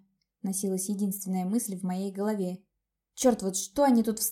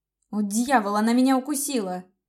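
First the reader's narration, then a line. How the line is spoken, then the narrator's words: Shocked shout. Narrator (Russian): закричал ошарашенный Ланс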